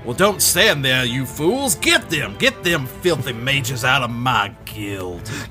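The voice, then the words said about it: Exaggerated angry character accent. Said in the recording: “You're going so much harder than you ever have on that accent ... he's mad now”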